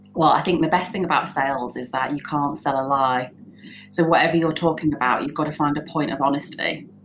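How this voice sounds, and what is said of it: Northern English accent. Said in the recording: “a colloquial, like a northern accent. ... because I was northern ... We sound more honest.”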